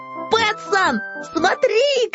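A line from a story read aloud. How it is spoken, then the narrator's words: Shout. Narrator (Russian): крикнул Финдус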